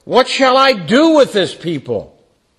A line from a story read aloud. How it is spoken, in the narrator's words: Moses cried to the Lord